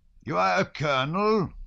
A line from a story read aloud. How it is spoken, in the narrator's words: shouted the chief of staff with a German accent in a voice familiar to Prince Andrew